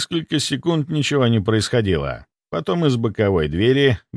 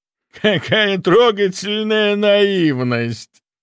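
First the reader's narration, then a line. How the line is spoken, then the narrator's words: Laughing. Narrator (Russian): засмеялся Михайлов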